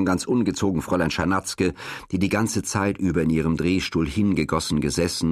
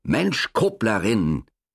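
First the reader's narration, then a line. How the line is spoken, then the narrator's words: Angry gasping. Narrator (German): japste zornig Fräulein Czernatzke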